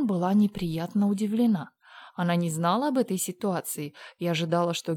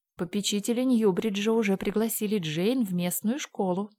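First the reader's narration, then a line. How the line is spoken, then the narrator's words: Plain. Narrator (Russian): сказала Диана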